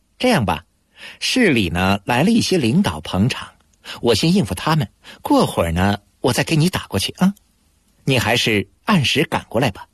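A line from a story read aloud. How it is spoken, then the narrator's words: Smiling. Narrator (Chinese): 他又笑笑说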